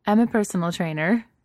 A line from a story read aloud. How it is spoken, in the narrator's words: Hillary says once she's done laughing